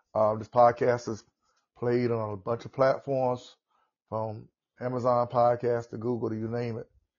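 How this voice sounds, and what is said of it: Southern US accent. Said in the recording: “this is my southern accent, so I'm in the south”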